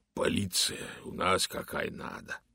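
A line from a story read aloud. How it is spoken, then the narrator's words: Hoarse voice. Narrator (Russian): сказал он хриплым голосом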